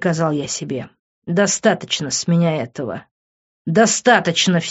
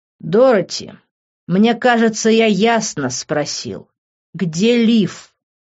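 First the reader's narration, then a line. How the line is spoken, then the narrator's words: Through gritted teeth. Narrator (Russian): Процедив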